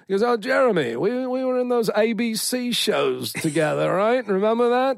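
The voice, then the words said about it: Imitates another person's voice with accent. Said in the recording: “if my accent's terrible, I won't do it ... I won't do the accent anymore”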